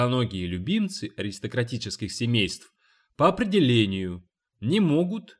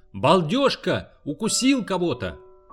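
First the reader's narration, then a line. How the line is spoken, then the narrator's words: Shout. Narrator (Russian): крикнул один из юных Перси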